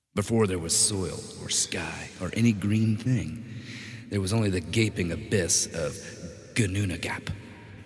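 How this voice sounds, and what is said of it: Dramatic epic narrator voice. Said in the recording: “Put on my epic voice.”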